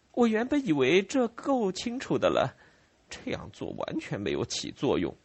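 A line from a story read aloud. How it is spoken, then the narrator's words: Sighing. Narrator (Chinese): 他叹息道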